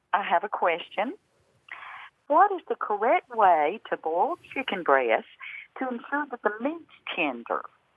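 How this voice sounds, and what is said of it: Central Alabama accent. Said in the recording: “I'm calling from Central Alabama. ... As you can probably tell. ... Well, yes, a little bit from the accent. I wouldn't have been able to place it that exactly”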